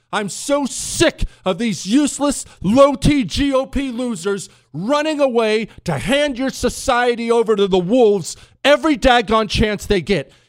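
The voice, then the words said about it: Angry yelling. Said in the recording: “I am so incensed with rage right now ... sorry I'm yelling.”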